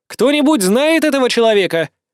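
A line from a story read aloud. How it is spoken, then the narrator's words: Shouted to crowd. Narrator (Russian): прокричала Аделина, обращаясь к многочисленным крестьянам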